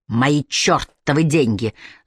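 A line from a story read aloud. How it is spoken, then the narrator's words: Man's angry hiss. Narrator (Russian): злобно шипит мужчина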